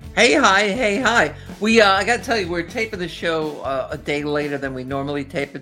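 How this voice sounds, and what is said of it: Strong New Jersey accent. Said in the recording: “a killer Jersey accent”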